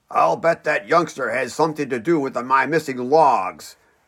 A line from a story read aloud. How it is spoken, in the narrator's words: growled his father